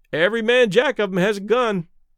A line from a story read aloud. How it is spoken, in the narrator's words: one of the sailors remarked cheerfully